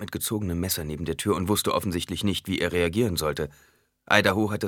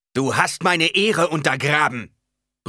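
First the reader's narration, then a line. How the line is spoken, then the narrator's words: Sudden roar. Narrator (German): brüllte Stilgar plötzlich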